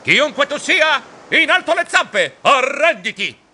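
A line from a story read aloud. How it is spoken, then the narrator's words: Shouting. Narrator (Italian): gridando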